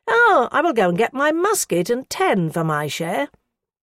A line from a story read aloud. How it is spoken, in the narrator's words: One wretch, raising his voice above the rest, exclaimed